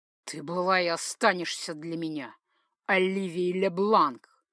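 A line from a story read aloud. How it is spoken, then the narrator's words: Angry through gritted teeth. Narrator (Russian): Процедил он сквозь зубы, зло сощурив при этом глаза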